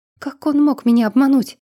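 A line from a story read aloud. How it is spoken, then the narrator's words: Agitated rapid chatter. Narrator (Russian): Глен взволнованно затараторил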